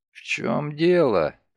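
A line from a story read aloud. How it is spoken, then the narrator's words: Hoarse rasp. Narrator (Russian): прохрипел Нолтон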